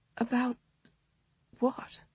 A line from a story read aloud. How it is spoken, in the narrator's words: she managed to whisper